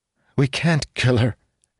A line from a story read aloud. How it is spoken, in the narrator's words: she said, though her voice was more uncertain now